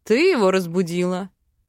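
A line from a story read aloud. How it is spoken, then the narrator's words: Snorting. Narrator (Russian): хмыкнул мужчина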